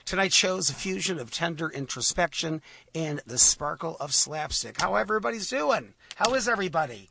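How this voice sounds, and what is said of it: Hoarse voice. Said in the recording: “My throat is a little ... I'm a little hoarse." Well, that's me tonight.”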